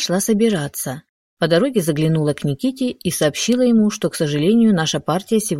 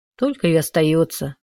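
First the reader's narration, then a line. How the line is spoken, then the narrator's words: Glum. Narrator (Russian): уныло произнес Шишков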